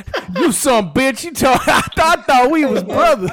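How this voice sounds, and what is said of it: Put-on hood accent. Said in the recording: “a really hood accent”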